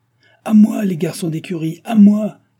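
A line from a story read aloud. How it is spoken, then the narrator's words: Innkeeper shouting. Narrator (French): cria l'hôtelier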